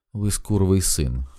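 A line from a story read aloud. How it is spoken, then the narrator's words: Calm. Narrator (Ukrainian): сказала вона спокійно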